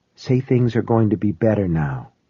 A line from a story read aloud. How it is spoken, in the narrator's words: she whispered